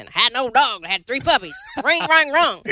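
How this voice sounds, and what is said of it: Put-on hillbilly accent. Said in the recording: “say it in like a, you know, hillbilly accent ... That's your hillbilly accent? ... That's the best I got.”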